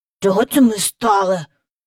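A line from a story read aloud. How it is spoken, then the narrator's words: Angry whisper. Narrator (Ukrainian): сердито прошепотів Майкл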